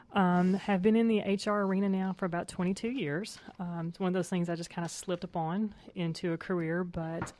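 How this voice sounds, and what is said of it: Tennessee Southern accent. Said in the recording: “I'm a native of Tennessee, so you'll get that out of my wonderful accent”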